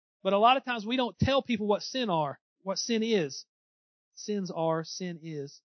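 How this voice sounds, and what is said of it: Southeast Missouri accent. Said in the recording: “my Southeast Missouri accent got the best of me right there”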